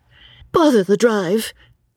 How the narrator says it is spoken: exclaimed the girl

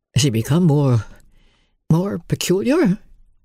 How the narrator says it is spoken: her master asked, knitting his brows anxiously

